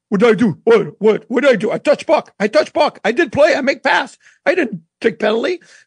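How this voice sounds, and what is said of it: Russian-accented impression of Maxim Afinogenov. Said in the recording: “Max in his Russian accent”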